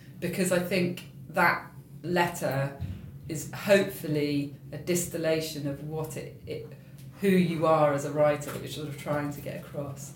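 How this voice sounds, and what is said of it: Voice giving out, strained. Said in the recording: “my voice is going a bit”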